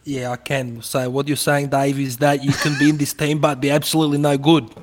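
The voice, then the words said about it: Put-on Australian ethnic twang accent. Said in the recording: “Aussie wog twang ... a decent twang of that accent ... You nailed it.”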